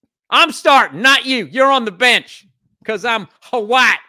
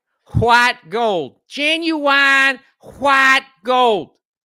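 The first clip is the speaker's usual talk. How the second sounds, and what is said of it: Put-on Southern accent, aspirated 'wh'. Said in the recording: “I like that southern accent down there when they add the H. They pronounce the H in white.”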